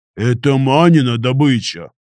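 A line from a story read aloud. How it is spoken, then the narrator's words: Hesitant booming. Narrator (Russian): Нерешительно прогудел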